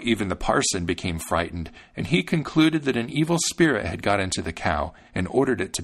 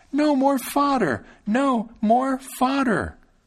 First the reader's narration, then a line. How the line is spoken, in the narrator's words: Thumbling cried out once again